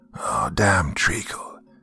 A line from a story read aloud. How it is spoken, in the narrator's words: I heard one of the men mutter to himself